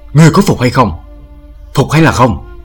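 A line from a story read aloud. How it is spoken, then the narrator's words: Shrill shout. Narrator (Vietnamese): Một đứa mặt mũi khôi ngô quát lên lanh lảnh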